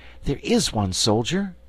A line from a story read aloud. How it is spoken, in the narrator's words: exclaimed Dorothy